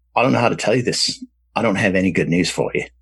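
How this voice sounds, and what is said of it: Bad put-on Australian accent. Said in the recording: “Australian bloke ... I'm going to do a bad accent here.”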